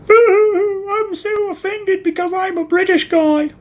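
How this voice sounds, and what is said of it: Awkward British accent, almost Australian. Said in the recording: “That accent wasn't really, didn't come out quite British enough. It was like weird, awkward, like almost Australian.”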